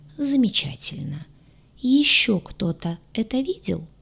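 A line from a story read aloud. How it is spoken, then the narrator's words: Almost gentle question. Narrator (Russian): почти ласково вопросил Кэп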